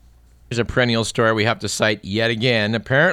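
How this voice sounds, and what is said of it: Usual voice. Nothing is said of it.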